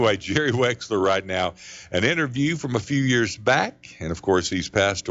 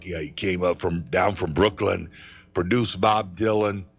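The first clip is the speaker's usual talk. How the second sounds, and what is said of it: Bad put-on Brooklyn accent. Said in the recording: “that's a bad Brooklyn impression there”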